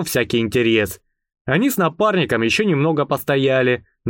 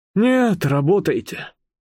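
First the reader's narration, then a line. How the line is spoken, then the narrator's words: Sighing. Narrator (Russian): вздохнул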